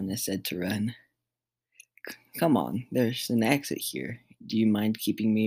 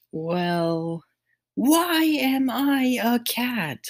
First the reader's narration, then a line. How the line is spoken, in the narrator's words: Morgana shouted once again